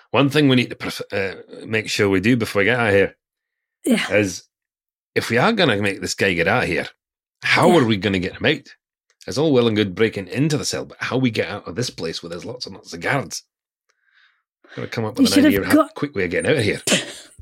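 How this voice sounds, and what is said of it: Put-on accent. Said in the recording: “let's put this in accent.”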